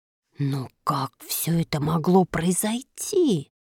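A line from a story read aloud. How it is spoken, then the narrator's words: Mutter. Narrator (Russian): бормотал он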